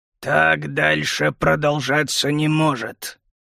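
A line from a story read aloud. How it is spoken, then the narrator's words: Through gritted teeth. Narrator (Russian): процедил сквозь зубы Хлад Краснолап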